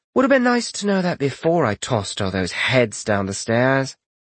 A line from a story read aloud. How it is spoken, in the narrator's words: she sighed